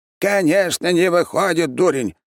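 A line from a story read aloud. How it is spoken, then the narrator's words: Sudden loud shout. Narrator (Russian): неожиданно громко крикнул маг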